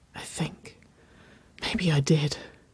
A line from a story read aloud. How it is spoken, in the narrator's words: Waverley whispered